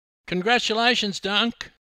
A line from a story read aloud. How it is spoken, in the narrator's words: yelled Susie Bomer